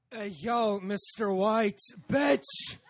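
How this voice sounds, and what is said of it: Impression of Jesse from Breaking Bad. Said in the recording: “my favorite impression to do is? ... The Jesse from Breaking Bad.”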